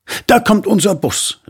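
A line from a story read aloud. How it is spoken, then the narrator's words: Man calling out. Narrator (German): rief der Mann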